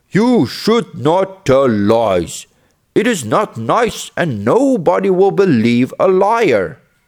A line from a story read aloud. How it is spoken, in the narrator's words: The villagers all yelled at the boy